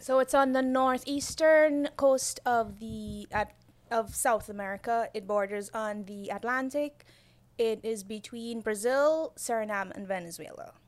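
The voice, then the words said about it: Guyanese accent. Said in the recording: “I was born in Guyana ... from my accent, if I sound like I have an accent to you ... You definitely have an accent.”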